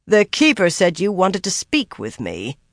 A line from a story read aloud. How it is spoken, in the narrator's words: Sylviana said irritably